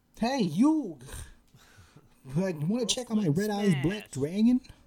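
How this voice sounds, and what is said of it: Boston accent cartoon character voice. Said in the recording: “Joey also has a Bostonian accent”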